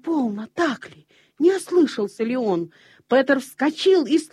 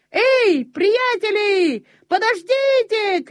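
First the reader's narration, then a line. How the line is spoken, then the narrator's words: Shouting. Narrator (Russian): кричал он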